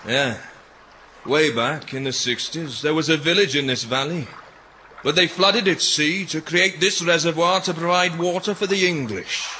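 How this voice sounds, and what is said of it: Alluring regional accent. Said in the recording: “Your accent is quite alluring”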